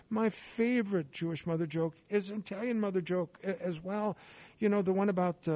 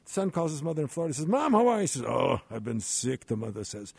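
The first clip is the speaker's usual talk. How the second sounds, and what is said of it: Put-on Yiddish accent. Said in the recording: “let me use a little Yiddish accent here”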